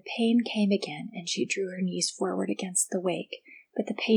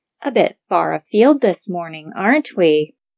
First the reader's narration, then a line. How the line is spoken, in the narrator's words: One fish, with a dimple in its side, sneered